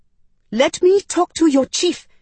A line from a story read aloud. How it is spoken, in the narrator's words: I shrieked